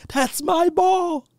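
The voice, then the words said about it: Small high-pitched imitated voice. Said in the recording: “He had that little high voice.”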